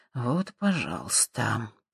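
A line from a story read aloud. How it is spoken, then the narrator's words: Muttered under breath. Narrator (Russian): пробормотал Боб себе под нос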